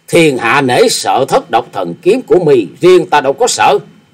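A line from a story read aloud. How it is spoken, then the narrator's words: Sneering. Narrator (Vietnamese): nhếch môi cười khẩy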